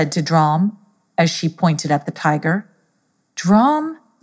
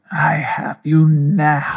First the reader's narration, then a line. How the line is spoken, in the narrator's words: snarled Pedro